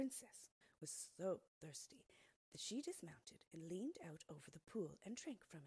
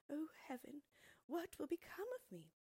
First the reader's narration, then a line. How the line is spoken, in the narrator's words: Her tears fell as she cried